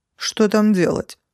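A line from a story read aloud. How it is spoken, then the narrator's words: Snorting. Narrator (Russian): фыркнул Грол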